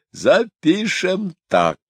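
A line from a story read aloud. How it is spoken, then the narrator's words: Joyful. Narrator (Russian): радостно сказал Гипс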